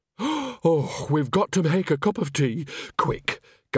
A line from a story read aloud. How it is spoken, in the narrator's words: gasped Nanny, almost sagging with relief